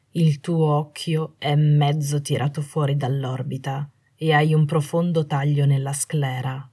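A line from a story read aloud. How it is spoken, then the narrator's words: Plain. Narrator (Italian): disse alla fine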